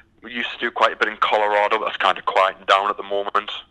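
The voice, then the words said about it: British (UK) accent. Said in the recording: “your accent is uh, very distinct ... as you can tell by the accent, I'm from the from the UK”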